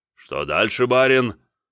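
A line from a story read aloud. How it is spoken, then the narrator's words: Deep bass voice. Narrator (Russian): пробасил мой тегловой помощник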